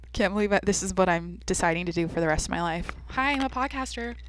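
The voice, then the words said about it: High-energy, wired speech. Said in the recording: “energy today... I'm on my 4th cup of coffee, if you can't hear it in my voice”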